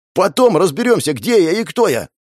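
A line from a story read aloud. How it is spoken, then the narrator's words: Yelling. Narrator (Russian): Заорал я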